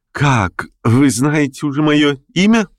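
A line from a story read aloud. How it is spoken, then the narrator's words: Joyful, smiling. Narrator (Russian): улыбнулся радостно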